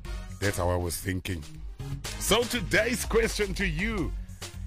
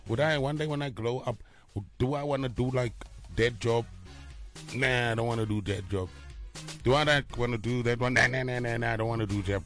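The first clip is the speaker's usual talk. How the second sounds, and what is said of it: Put-on accent. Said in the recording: “I was thinking like this, in this accent.”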